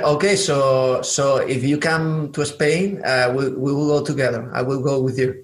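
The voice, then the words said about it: Southern-accented English. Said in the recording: “I'm from the south of Spain, so actually, I always say that I have a southern accent in Spanish and also in English because uh, I was living in Atlanta”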